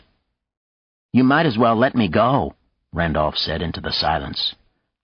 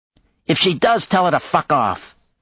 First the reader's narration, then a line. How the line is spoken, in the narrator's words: Maya exclaimed